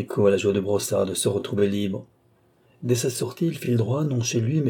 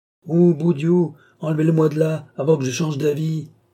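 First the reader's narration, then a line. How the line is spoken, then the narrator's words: Yelling. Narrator (French): hurle Trinquier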